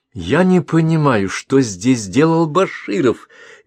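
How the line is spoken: Shrill voice. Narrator (Russian): визгливым тоном произнесла Лера

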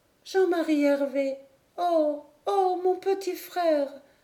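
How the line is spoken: Distant moaning voice. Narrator (French): gémit une voix dans les dunes

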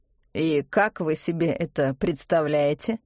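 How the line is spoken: Official-toned question. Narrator (Russian): спросил Чернов своим особенным официальным тоном

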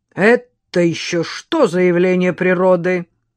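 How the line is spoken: Stern question. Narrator (Russian): строго осведомился дворник

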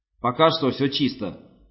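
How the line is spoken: Bark. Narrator (Russian): рявкнул Хаксли

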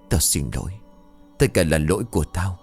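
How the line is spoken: Muttering. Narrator (Vietnamese): Anh lẩm bẩm

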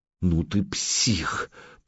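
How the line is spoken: Hoarse rasp. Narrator (Russian): прохрипела Алена

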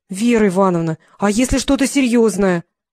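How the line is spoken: Pleading. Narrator (Russian): взмолился Феликс

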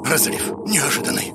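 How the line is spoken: Hoarse wheeze. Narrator (Russian): захрипел он

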